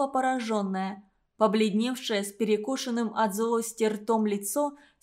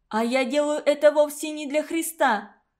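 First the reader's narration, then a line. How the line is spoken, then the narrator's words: Shouting while sobbing. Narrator (Russian): крикнула я, заливаясь слезами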